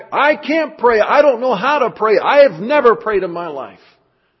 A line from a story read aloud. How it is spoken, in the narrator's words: John yelled back